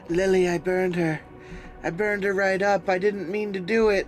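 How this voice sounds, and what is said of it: Tired-sounding female voice. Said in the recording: “she sounds tired.”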